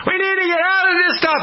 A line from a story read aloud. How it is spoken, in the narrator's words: The people are screaming